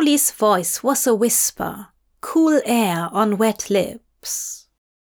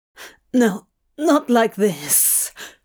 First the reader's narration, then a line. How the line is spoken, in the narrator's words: Crowley rasped, low and desperate